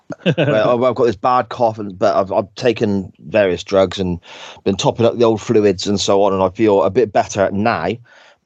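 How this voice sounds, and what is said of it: Sore, strained throaty voice. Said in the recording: “I've got a terrible sore throat... I was losing my voice... my voice was going”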